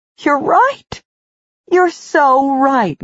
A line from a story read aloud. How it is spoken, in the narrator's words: Nessa cried